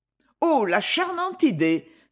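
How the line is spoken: Enthusiastic exclamation. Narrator (French): s'écria Miss Etty avec enthousiasme

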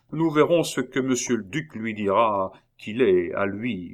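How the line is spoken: Soldier grumbling, self-consoling. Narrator (French): grommela le soldat pour se consoler

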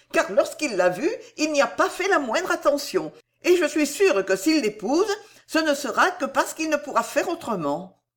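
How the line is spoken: Exclaimed. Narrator (French): s'écria-t-elle

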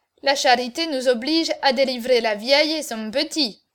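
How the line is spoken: Plain. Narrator (French): dit-il

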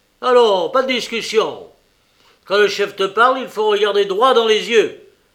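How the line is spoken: Crying out. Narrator (French): s'écria le directeur

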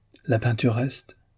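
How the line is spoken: Murmuring. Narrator (French): murmura Démiane

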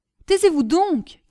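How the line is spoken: Imperious shout. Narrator (French): cria d'un ton impérieux M

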